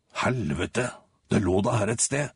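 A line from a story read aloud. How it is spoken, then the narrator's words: Despairing mutter. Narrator (Norwegian): mumler han fortvilet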